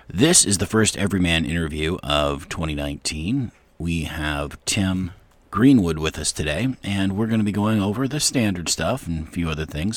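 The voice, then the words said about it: Voice affected by a cold. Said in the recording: “I do have a cold and my voice is holding out for now”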